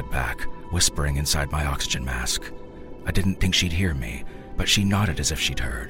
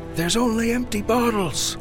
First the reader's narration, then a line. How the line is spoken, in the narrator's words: Ronnie screamed